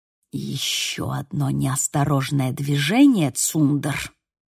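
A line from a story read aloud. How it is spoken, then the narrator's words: Irritated hiss. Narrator (Russian): прошипел Финли с раздраженным выражением лица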